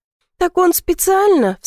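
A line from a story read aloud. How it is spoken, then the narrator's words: Sobbing. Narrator (Russian): всхлипываю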